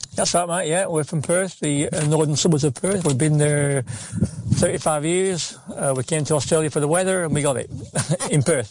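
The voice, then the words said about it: Strong English accent. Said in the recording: “You sound like you got off the bat yesterday. ... I've got a pretty strong accent.”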